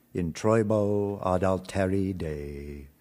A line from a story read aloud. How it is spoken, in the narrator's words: intoned